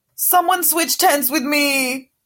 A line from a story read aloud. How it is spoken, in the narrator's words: Goyle shrieked again